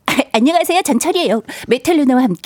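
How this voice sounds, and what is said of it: Imitates a cartoon character's voice. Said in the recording (Korean): “성대모사예요? ... 성대모사입니다 ... 비슷했어요. 비슷해가지고.”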